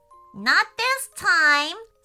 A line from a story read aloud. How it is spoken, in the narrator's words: said Storm Pixie, giggling nastily